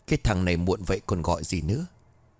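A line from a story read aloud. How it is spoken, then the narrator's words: Muttering. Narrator (Vietnamese): Nó liền lẩm bẩm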